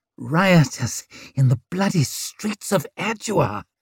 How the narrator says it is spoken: wheezed Hoff as he sagged down

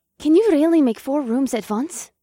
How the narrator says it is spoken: Revna gasped

